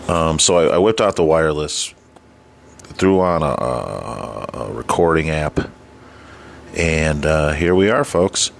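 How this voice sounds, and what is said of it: Strained, fading voice. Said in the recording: “My voice is going a little bit here, so I apologize for that.”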